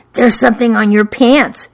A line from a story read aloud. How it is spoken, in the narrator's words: she whispered